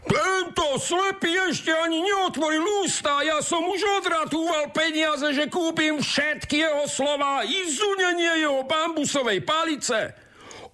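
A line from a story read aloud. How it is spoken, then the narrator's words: Shouting. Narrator (Slovak): kričí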